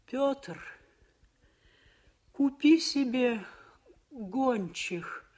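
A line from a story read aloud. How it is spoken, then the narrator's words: Moaning. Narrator (Russian): простонала она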